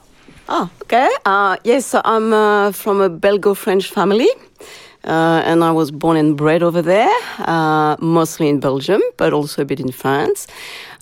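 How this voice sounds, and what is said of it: French accent. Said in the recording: “You've got that beautiful French accent”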